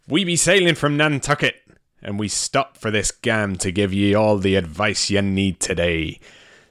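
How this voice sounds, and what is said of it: Bad piratey Nantucket accent. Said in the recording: “the accent I was doing, I was trying not to be full pirate ... I was trying to do like Nantucket, but a little bit piratey ... half American, half English, half pirate ... It was a bad accent”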